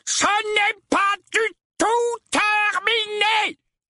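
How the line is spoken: Uncle yelling. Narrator (French): hurla l'oncle Vernon

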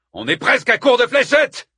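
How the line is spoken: Shouted from behind. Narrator (French): cria Stoman depuis l'arrière

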